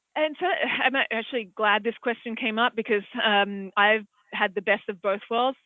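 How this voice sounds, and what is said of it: Australian accent. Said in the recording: “as you can probably tell from my accent, I'm from Australia”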